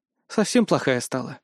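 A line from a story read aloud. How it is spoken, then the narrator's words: Sigh. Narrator (Russian): вздохнула Ася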